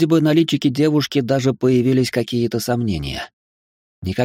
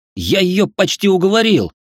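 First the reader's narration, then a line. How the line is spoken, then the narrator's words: Indignant exclamation. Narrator (Russian): возмущенно воскликнул я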